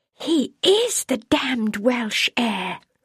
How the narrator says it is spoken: whispered almost to herself, her voice trembling with fright

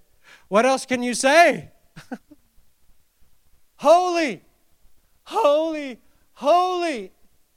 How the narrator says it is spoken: one called out to the other and said

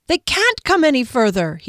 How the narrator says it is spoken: he cried triumphantly

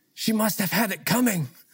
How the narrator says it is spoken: Confused and bewildered, the ambassador leaned forward and whispered

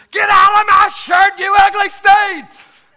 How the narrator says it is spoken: shouted at it

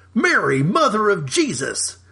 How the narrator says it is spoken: Nate exclaimed, feigning shock

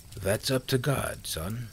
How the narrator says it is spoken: Jim said smoothly

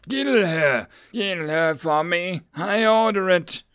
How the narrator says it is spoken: gasped

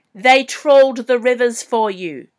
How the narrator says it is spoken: he howled at her

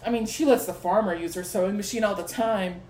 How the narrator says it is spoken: Marnie scoffed

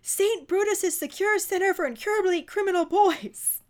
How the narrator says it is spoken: Vernon panics and yells out

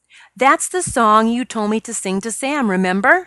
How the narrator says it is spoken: she asked

